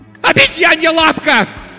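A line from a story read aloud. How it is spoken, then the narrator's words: Wild shouting. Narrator (Russian): дико кричала она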